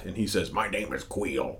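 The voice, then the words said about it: Imitates another person's voice. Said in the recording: “not a good Nolte impression... That wasn't bad.”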